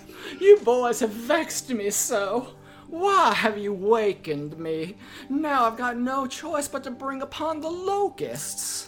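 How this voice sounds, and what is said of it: Put-on Southern Belle accent. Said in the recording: “my voice is wavering wildly... He's turning southern... She's a Southern Belle now?”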